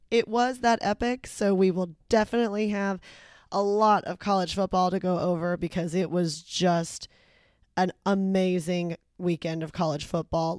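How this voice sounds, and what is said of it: Hoarse, worn-out voice. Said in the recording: “my voice is a little worse for wear ... I went to the game and lost my voice.”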